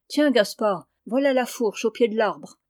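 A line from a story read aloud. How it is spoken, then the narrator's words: Shouted. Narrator (French): cria-t-il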